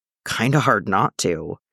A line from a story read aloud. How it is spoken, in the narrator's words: he croaked